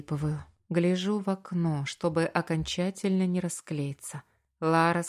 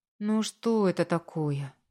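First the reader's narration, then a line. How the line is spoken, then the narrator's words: Soft question. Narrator (Russian): мягко спрашивает подруга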